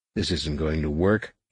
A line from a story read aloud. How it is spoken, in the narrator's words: he muttered